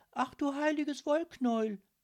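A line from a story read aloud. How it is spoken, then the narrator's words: Excited call. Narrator (German): rief Lilith aufgeregt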